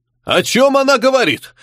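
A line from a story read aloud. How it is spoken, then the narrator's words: Barked. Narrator (Russian): рявкнул дядя погибшей феи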